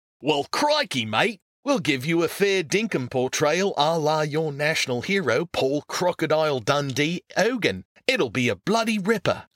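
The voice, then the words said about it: Broad caricatured Australian accent. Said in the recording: “broad, caricatured Australian accents”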